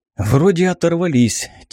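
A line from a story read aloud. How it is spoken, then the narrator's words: Heavy exhale. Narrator (Russian): тяжело выдохнул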